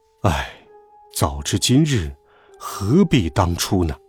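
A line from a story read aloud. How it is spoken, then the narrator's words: Sighing. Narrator (Chinese): 爸爸叹了一口气，说道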